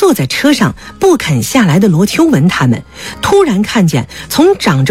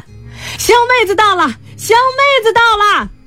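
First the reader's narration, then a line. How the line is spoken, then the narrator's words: Shouting. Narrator (Chinese): 陈明义喊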